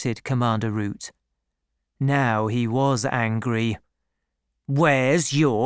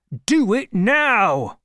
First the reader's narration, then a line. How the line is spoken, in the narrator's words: he shouted